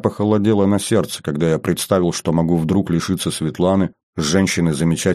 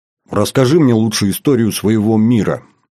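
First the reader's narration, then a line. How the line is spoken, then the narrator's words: Abrupt change of subject. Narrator (Russian): резко сменила тему разговора с Маркалова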